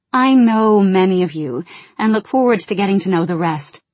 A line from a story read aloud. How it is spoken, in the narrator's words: Jaina said warmly